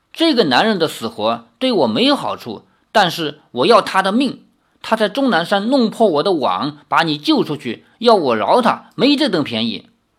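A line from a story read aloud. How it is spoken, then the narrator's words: Angry. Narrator (Chinese): 毒娘子怒道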